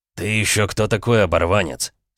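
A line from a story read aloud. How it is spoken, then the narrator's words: Angry man. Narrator (Russian): сердито произнес мужчина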